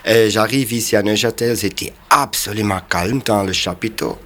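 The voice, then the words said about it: Swiss German accent in French. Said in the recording (French): “on accepte mon accent ... les Suisses allemands quand ils parlent le français”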